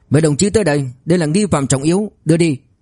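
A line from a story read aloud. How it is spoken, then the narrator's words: Shouting. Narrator (Vietnamese): Liên Cường quát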